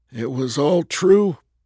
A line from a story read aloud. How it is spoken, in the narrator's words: Hank said in a cracking voice